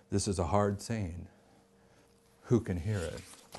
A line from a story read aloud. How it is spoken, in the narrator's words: They go away offended, murmuring